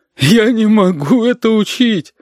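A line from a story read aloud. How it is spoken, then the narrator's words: Sobbing. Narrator (Russian): Оксана всхлипывала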